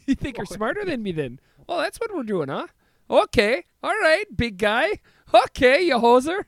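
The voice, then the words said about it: Put-on Canadian accent. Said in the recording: “I feel like I'm getting a handle on my Canadian accent. ... You're doing it.”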